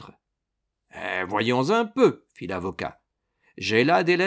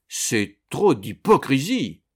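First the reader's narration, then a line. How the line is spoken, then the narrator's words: Old gentleman exclaiming. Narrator (French): s'écria le vieux gentleman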